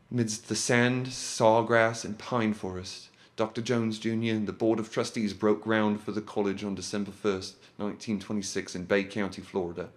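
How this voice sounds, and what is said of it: Put-on accent reading a quote. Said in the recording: “I don't know why I'm doing that accent.”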